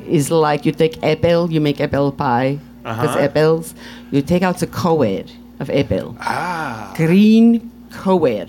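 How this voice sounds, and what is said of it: Put-on Russian accent. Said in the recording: “Where did you learn the accent? ... he asked me to do a Russian accent”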